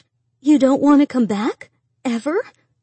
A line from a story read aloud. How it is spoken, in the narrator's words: Miriam gasped